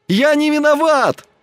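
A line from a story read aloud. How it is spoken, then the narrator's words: Shouting. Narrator (Russian): кричал он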